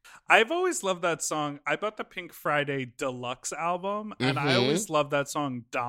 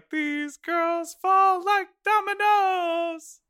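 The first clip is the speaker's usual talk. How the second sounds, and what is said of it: Sung in high falsetto. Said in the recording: “That's really high up in my register. ... I did my deep falsetto.”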